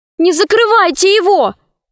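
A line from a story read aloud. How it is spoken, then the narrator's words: Shouted. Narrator (Russian): крикнула она Синдбаду-мореходу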